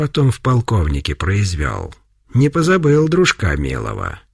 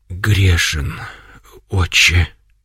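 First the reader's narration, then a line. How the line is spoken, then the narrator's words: Barely audible, then sobbing. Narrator (Russian): наконец еле слышно произнес он и зарыдал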